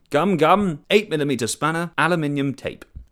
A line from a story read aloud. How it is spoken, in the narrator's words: as he lay underneath shouting